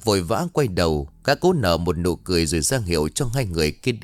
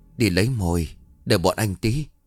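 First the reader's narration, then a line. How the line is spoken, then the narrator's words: Stammered. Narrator (Vietnamese): Chí cá lóc lắp bắp nói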